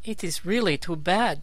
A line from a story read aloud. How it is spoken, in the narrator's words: exclaimed Zixi with vexation